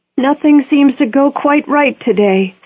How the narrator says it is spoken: said a woman farther back in the car in a loud, quivering voice

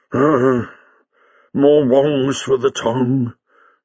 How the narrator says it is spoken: said Jago gloomily

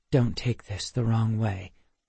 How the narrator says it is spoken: gently this time, and whispered in my ear

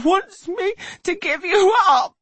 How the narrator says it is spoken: she sobs

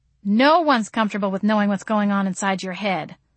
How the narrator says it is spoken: I snorted

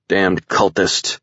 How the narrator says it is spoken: Stevens grunted

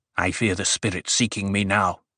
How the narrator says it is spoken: Bijaz muttered

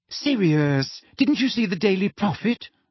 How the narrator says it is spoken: said Hermione anxiously

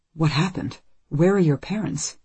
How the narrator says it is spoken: asks at last, uneasily

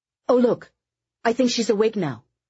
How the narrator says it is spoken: Eddie said excitedly

